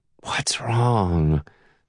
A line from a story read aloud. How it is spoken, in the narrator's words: slurs Tasha